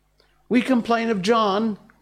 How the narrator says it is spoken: cried the twins

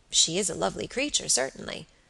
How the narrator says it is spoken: murmured Robert, with placid admiration

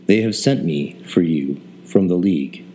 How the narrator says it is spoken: he said

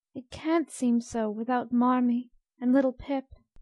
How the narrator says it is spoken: sighed Beth, glancing with full eyes

